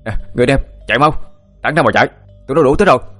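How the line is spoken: Shouting. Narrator (Vietnamese): Thắng đã hét lên

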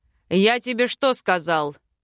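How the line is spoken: Barking. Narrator (Russian): Рявкнул магистр Дайрон

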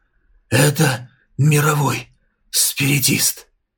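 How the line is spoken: Low trembling voice. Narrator (Russian): Он дрожащими губами низким тоном произнес

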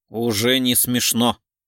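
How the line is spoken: Dismissive snort. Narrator (Russian): фыркнул Гуров

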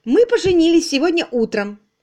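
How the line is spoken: Joyful. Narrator (Russian): радостно сообщила

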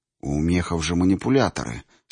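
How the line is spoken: Whisper. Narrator (Russian): шепнул Гриднев

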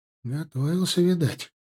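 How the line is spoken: Whispered. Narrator (Russian): шепнул мне Стас

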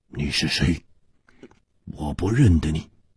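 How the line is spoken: Hoarse, startled. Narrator (Chinese): 蒙面客身子一震，哑声说

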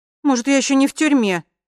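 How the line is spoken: Frightened. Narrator (Russian): испуганно сказала Лина

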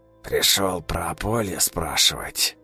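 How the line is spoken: Quiet and hoarse. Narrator (Russian): Негромко и хрипло проговорил Силантий

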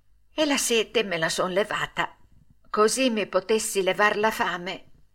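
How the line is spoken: Half-voiced mutter. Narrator (Italian): Pinocchio borbottò a mezza voce

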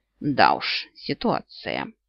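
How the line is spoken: Amused snort. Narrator (Russian): Йен хмыкнул

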